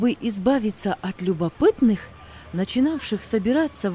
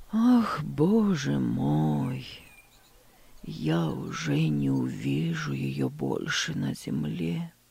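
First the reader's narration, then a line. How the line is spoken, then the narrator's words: Sad old man. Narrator (Russian): грустно проговорил дедушка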